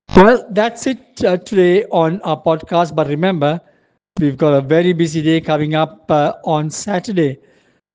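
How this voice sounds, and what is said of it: Hoarse voice. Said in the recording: “pardon my voice, I'm sounding a bit hoarse”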